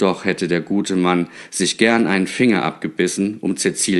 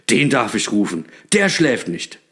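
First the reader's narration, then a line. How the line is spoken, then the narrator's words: Joyful call. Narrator (German): rief Knecht Ruprecht erfreut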